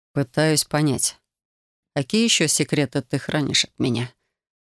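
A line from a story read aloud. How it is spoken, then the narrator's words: Quiet reply. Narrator (Russian): Тихо отозвался Рион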